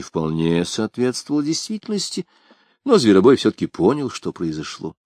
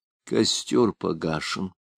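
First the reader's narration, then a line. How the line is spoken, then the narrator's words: Low undertone. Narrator (Russian): Делавар … промолвил вполголоса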